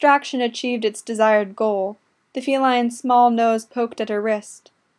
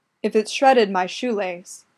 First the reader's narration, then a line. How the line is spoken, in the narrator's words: growled, letting the threat trail out unfinished